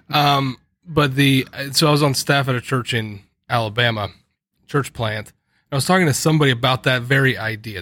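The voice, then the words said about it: Slight Southern twang. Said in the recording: “I have a little bit of twang”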